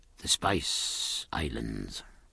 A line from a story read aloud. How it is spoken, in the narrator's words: murmured Stephen